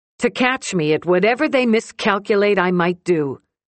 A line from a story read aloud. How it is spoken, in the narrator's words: she says loudly